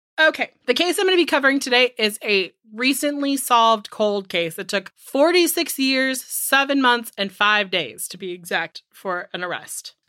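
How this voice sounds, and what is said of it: Congested, stuffy nasal voice. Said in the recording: “Forgive my voice ... my allergies are attacking me ... I think I sound like my allergies are sitting in my sinuses.”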